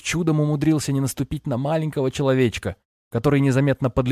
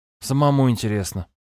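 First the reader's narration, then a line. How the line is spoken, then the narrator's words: Sighing. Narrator (Russian): вздохнул жрец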